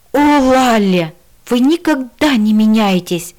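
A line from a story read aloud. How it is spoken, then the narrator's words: Exasperated exclamation. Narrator (Russian): в сердцах воскликнул Мила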